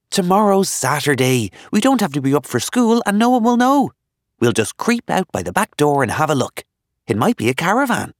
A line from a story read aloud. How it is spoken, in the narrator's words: he added excitedly